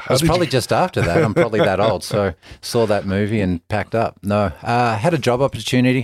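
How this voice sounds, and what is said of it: Australian accent. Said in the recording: “Where's that accent? I mean, Australia.”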